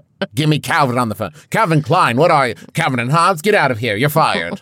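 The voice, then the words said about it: Weak imitation of a film character. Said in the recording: “trying to do my best Miranda Priestly from Devil Wears Prada ... that's not a good impression. ... No, clearly not.”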